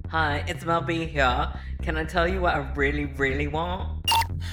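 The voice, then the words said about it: Deliberately bad British accent. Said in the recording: “Terrible British accent alert.”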